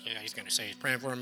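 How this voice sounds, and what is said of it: Imitates another person's voice. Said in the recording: “it's a pretty good Larry impersonation”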